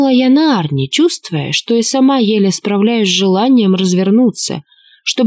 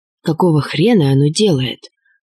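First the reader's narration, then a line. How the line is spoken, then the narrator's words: Muttered. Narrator (Russian): пробормотал Штерн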